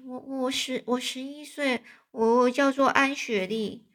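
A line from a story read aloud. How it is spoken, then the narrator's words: Voice trailing off. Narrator (Chinese): 这安妮的声音越来越小了，说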